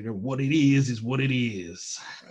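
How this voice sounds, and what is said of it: Randy Savage impression. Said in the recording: “I'm going to do a Randy Savage impression.”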